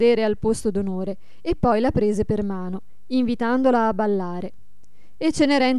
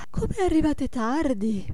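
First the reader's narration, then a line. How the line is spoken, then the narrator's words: Yawning exclamation. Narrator (Italian): esclamò sbadigliando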